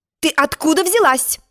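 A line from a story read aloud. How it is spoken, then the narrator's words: Stern queenly question. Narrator (Russian): строго спросила королева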